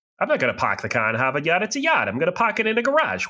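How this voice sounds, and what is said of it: Put-on Boston accent. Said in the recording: “you did nail the accent, too. You still got it. ... that's the only thing I can say in the accent ... shout out the Boston accent”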